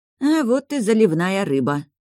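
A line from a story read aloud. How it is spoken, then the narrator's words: Gloomy comment. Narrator (Russian): мрачно прокомментировала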